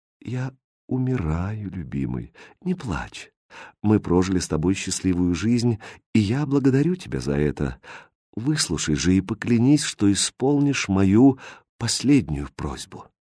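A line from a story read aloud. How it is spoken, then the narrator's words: Quiet, dying. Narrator (Russian): Королева обращаясь к королю, тихо сказала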